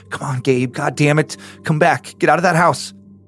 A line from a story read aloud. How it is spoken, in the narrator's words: groaning in frustration and concern before he mumbled